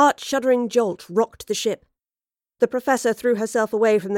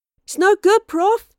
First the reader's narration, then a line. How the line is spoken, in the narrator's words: Astrid cried